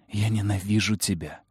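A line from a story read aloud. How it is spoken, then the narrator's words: Hoarse rasp. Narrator (Russian): прохрипела я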